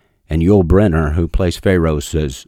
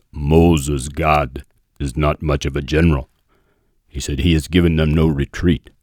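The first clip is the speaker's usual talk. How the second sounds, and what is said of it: Yul Brynner impression, deep voice. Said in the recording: “my Yul Brynner impersonation. He had a great voice.”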